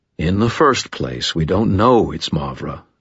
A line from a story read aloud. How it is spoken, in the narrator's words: Thomas said